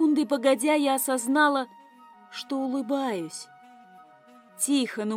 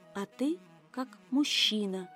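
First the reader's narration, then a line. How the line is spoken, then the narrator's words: Timid correction. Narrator (Russian): поправила робко, по-нашему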